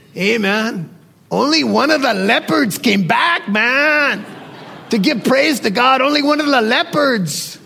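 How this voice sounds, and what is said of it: Imitates another person's voice. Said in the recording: “my Raul Ries impression. ... that's probably a poor Raul Ries”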